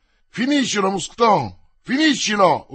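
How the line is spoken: Yell. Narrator (Italian): urlò Porthos

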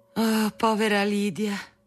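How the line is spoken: Mother sighing. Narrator (Italian): sospirava di tanto in tanto mia madre

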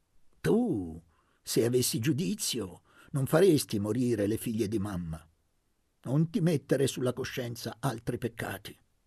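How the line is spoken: Harsher voice. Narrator (Italian): continuò con voce più aspra

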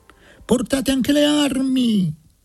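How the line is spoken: Shout. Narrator (Italian): gridò Antonacci

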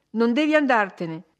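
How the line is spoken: Woman exclaiming vigorously. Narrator (Italian): esclamò lei con vigore

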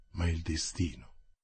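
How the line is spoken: Murmured. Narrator (Italian): mormorò Athos

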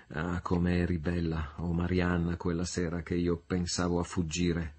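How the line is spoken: Murmured. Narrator (Italian): mormorò

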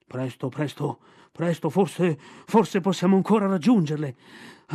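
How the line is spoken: Panting. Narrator (Italian): ansimò Baloo

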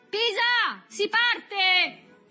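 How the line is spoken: Shouted. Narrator (Italian): Berto gridava

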